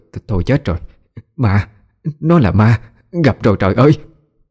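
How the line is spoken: Stammering old woman. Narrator (Vietnamese): Miệng bà lắp bắp nói

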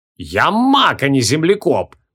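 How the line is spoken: Roaring. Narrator (Russian): взревел он

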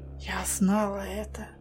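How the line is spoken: Very quiet. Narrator (Russian): очень тихо произнесла она

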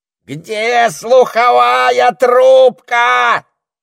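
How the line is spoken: Parrot screeching. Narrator (Russian): завопил попугай

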